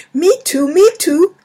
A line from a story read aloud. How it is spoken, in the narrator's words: shouted Taylor and Zoe